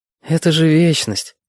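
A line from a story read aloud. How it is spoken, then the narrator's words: Sighing. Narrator (Russian): вздохнул Витька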